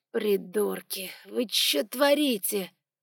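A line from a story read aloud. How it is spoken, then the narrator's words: Groan. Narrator (Russian): простонал Лукас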